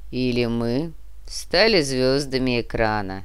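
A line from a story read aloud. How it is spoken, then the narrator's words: Drawling. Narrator (Russian): протянул Нур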